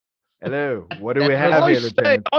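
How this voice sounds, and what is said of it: Put-on Cockney British accent. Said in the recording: “I don't know why I became Dick Van Dyke all of a sudden. ... Oh, Cockney, he's just British.”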